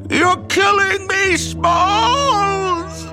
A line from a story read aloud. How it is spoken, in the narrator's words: Ham shriek